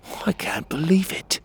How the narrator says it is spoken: I whispered

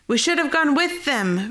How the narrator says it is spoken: Ronaldo shouted

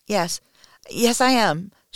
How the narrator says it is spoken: stammers

